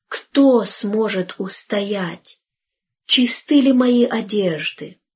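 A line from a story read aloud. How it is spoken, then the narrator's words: Group exclamation. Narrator (Russian): мы все воскликнули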